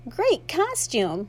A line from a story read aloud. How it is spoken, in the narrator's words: squeaked